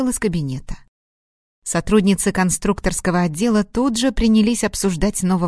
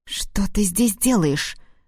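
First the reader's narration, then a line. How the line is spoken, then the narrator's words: Hissed. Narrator (Russian): зашипела на него Марина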